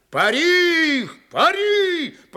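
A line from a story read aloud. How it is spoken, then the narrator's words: Hoarse shout. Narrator (Russian): хрипло кричал Григорий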